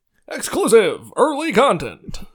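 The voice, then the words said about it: Dramatic narrator voice. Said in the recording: “my Clone Wars narrator voice”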